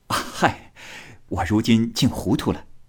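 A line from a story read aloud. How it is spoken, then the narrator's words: Smiling. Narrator (Chinese): 贾琏含笑道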